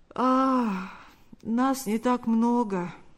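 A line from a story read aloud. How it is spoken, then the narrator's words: Slightly sleepy voice. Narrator (Russian): ответил тот немного сонным голосом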